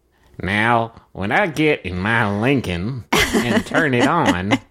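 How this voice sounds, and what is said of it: Imitates another person's voice. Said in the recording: “my impression of Jeff Foxworthy doing an impression ... Do Jeff Foxworthy doing Matthew McConaughey?”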